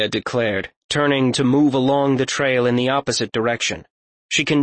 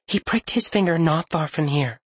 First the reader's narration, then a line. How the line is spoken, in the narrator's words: Nakane's voice was quiet, barely above a whisper